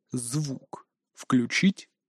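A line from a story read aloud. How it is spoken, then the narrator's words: Quiet inquiry. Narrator (Russian): Так же тихо осведомился начальник 113-го участка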